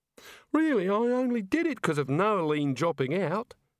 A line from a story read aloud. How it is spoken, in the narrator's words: Neelette sobbed